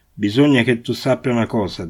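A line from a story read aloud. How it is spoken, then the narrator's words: Plain. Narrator (Italian): disse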